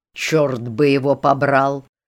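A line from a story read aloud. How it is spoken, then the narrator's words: Indignant growl. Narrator (Russian): зарычал мистер Саубридж с негодованием старшего лейтенанта, 3 недели дожидающегося мичмана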